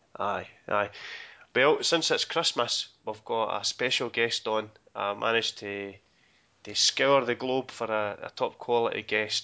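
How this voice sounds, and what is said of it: Slightly husky, congested voice. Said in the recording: “I've got a bit of a cold, so I might sound a wee bit dodgy during the podcast ... Husky.”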